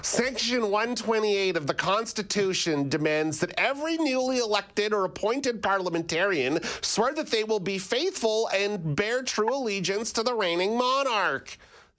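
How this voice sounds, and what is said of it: Put-on nerdy voice. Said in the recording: “put on a nerd voice. ... Best nerd voice ever.”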